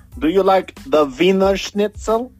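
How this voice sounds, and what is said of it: Put-on Bosnian accent, sounds Russian. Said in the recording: “my Bosnian accent is actually very good ... No, darling, you sound like you're from Russia.”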